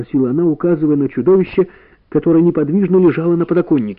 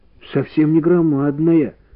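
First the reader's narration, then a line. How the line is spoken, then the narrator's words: Glum. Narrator (Russian): уныло сказал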